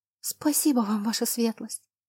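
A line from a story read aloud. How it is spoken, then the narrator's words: Girl's soundless mouthed whisper. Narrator (Russian): одними губами прошептала девушка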